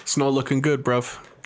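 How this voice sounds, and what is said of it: Put-on urban British accent. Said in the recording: “That's the kind of accent I would want ... That's kind of like Cockney. Well, that's like hood. ... That's like urban British.”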